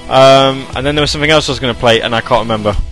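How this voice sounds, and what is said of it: English accent. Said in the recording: “I love your accent. ... I'm I'm English. ... We English people sound like this all the time.”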